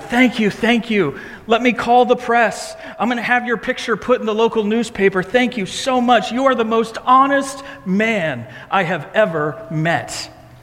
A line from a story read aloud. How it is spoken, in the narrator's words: He shouted